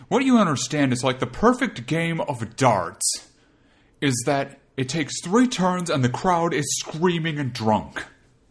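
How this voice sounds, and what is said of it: Imitates another person's voice. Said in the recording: “my best Oscar impression”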